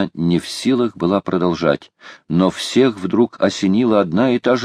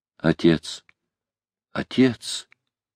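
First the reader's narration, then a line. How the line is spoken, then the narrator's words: Girl whispering. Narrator (Russian): прошептала девушка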